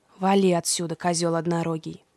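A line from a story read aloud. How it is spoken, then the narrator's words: Grumbling out of earshot. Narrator (Russian): проворчал Фавнир, когда Индрик уже не мог его слышать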